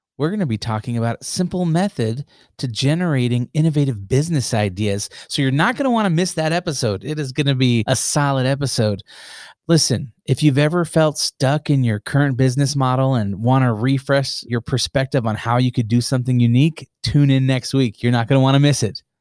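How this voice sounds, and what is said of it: Radio announcer voice. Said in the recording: “I love your radio voice. It's so good.”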